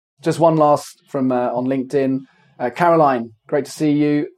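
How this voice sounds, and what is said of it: Hoarse, fading voice from a cold. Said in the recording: “I'm losing my voice ... It's just a cold”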